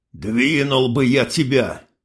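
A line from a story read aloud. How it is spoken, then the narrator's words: Old man's grumble. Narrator (Russian): Пробурчал старик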